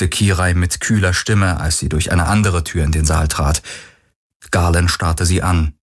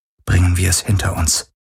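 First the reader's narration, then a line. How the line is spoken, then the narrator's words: Whispered. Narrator (German): flüsterte sie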